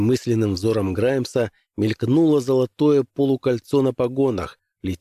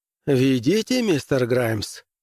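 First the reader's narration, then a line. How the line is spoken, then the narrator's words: Cheerful, smiling permission. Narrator (Russian): разрешил весело улыбаясь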